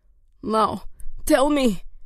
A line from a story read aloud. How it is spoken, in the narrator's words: Degain gasped